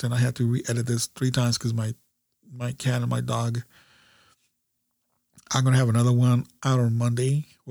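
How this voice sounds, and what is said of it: Congested, stuffed-up sick voice. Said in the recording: “I'm getting really sick. I'm really stuffed up. You guys could probably hear the difference in my voice.”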